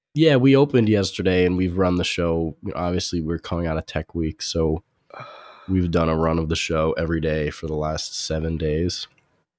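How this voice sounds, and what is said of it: Hoarse, quiet, strained voice. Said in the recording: “It's not a bug. I lost my voice. ... this is like me conserving my voice ... I have the ability to sound normal, but I need to save that for the show.”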